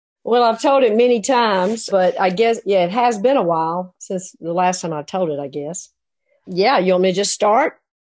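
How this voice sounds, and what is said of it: Southern American accent. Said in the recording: “Her Southern accent is perfection.”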